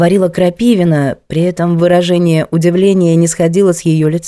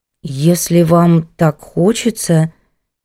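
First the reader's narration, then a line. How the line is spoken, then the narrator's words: Uncertain drawl. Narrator (Russian): неуверенно протянула Софья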